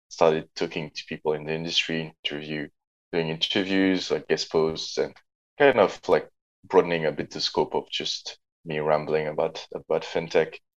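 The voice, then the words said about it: Slight French accent. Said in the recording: “as you can hear, I'm a Frenchman as well ... Tiny, slight accent ... just a smidge”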